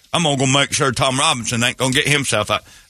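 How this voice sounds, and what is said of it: Southern hillbilly accent as Atticus Finch. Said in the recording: “A bunch of hillbillies in that thing... Atticus Finch... That accent isn't going to save the black guy.”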